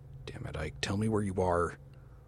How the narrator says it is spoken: I hissed

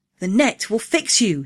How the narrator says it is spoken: he cried

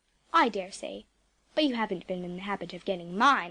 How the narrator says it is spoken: I said firmly

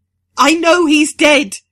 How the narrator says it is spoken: she screams

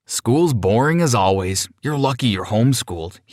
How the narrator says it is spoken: replied

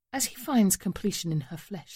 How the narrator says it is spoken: she murmurs

